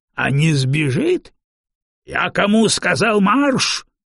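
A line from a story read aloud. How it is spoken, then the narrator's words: Roared. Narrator (Russian): взревел его собеседник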